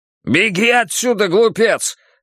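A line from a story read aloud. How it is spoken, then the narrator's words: Two bears roaring. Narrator (Russian): рявкнул оба медведя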